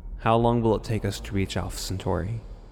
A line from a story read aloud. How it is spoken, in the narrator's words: Roberts asked